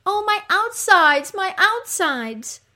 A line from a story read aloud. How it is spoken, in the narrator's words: Eriskigal cries out